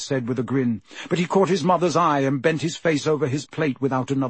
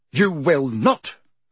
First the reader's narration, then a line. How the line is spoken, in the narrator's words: snapped Mrs